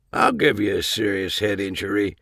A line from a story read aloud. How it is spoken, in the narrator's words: he mumbled